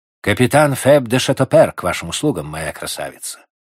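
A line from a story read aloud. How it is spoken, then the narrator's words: Plain. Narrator (Russian): ответил офицер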